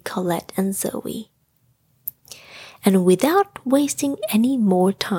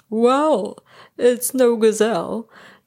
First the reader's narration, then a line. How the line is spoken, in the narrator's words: chuckled